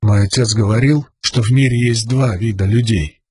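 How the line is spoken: Hoarse whisper. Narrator (Russian): хрипло прошептал Каладин

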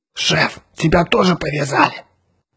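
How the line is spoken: Hissing. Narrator (Russian): прошипел Отто

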